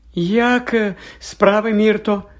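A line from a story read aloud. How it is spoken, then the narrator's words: Falsely cheerful question. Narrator (Ukrainian): нещирим радісним голосом запитала Герміона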